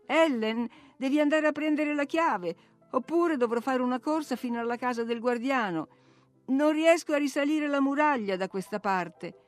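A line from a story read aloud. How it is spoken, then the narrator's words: Exclaiming while laughing. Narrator (Italian): la sentii ridere ed esclamare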